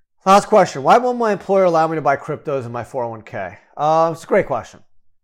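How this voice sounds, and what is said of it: Slightly nasal, scratchy sick voice. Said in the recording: “I actually came down with COVID a few days ago ... My throat's a bit scratchy ... my voice is a bit off and a little bit nasal”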